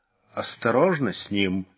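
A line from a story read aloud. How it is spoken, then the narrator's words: Quiet. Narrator (Russian): негромко сказал кто-то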